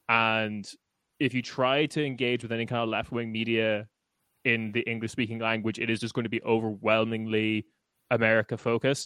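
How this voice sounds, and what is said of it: Irish accent. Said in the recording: “I am Irish based on my accent”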